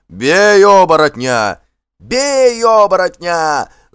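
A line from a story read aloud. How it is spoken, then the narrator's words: Frightened yelling. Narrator (Russian): завопили работники криком, стараясь заглушить собственный страх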